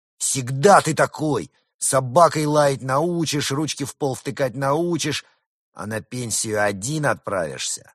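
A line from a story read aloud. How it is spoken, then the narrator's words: Trembling, resentful shout. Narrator (Russian): От обиды и возмущения Колька весь задрожал и крикнул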